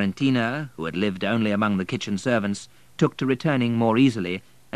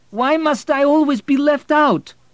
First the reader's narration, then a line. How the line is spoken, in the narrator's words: cried Vladik